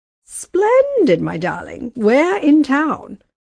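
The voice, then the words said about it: Patrician upper-class accent imitation. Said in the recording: “she imitated the patrician accent of her grandmother, Sabine.”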